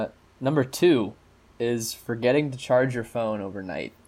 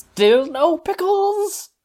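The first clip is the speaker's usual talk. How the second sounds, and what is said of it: Cartoon character voice impression. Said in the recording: “Quick bubble bass humor for you. That's my Korg impression”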